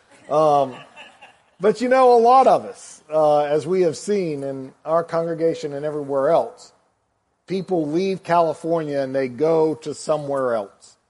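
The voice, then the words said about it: Slight Southern US accent. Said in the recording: “they can tell I'm not from California with a little bit of a southern accent”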